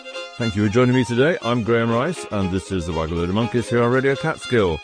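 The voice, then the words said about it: Old-fashioned English accent. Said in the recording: “in his old-fashioned English accent”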